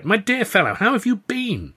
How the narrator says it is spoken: I cried with delight

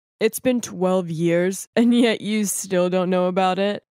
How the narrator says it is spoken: One of the men just laughed and said

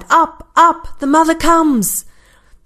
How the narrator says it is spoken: cried

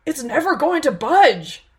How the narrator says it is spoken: exclaimed Kai

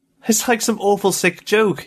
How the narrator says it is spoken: he cried to Faber

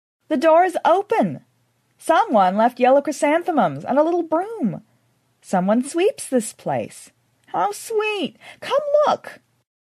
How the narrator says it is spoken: Belinda exclaimed

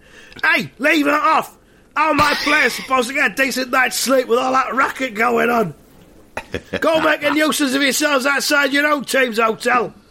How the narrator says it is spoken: Roy, he's come to the window, he's opened his window, and he's shouting

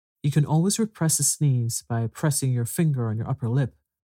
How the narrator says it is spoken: said Mrs

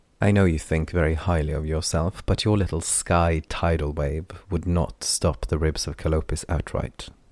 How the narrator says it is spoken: Lon said

